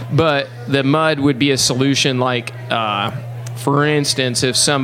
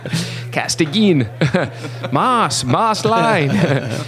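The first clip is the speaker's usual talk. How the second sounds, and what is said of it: Bad imitation Spanish accent. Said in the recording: “it's a horrible Spanish accent”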